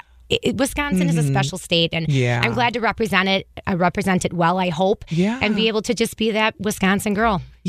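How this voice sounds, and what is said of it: Funny Wisconsin accent. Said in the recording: “I do have a very funny accent. I am a Wisconsinite”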